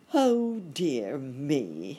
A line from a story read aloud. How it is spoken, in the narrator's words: exclaimed Uncle Wiggily as he thought of the penny